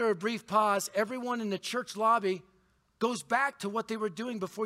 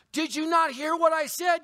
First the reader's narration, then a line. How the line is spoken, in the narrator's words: you yell in unbelief